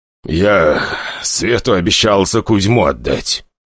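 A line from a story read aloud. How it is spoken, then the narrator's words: Reluctant, through gritted teeth. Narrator (Russian): собравшись с духом, но сквозь зубы ответил Николай Григорьевич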